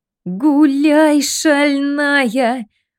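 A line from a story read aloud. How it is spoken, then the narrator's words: Howling. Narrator (Russian): провыла Матрёша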